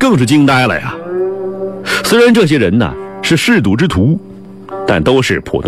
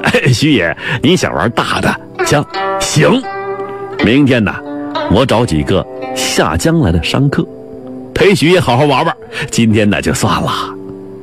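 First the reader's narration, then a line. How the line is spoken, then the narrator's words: Ingratiating, placating. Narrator (Chinese): 赌房老板呢也矮了3分，怕砸了场子，忙对徐奈赔笑脸的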